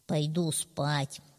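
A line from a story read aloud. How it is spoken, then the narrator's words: Plain. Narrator (Russian): сказал он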